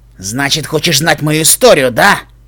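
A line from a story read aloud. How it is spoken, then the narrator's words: Growled. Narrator (Russian): прорычал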